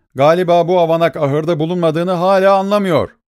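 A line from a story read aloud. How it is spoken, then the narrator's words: Shouted. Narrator (Turkish): diye bağırdı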